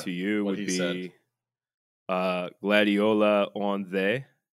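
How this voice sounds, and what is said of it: Mock Old English, Philadelphia accent. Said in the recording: “That was some bad old English. Old English with a Philadelphia accent.”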